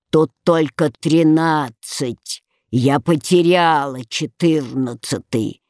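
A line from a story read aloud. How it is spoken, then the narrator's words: Grumbling. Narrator (Russian): пробурчав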